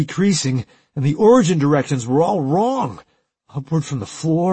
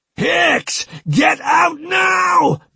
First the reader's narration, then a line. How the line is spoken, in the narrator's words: Maxwell screamed in his ear